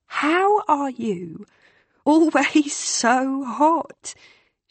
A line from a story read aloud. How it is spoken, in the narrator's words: manages with a shaky laugh